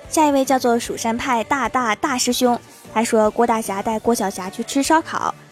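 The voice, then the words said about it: Northeastern Chinese accent. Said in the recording (Chinese): “你那东北口音，我深深的沉迷呀”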